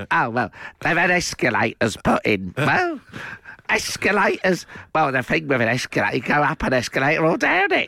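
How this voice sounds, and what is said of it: Bad imitation of another person's voice. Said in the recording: “That's such a bad impression. ... It went a bit zippy. ... Then it can go a bit Whittaker-y, Josh Whittaker-y.”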